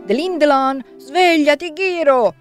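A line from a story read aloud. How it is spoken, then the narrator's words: Shouting at window. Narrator (Italian): Coniglio urlò alla finestra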